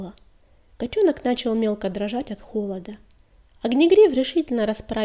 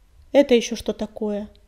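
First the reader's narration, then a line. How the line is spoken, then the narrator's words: Cold question. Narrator (Russian): холодно спросила синяя звезда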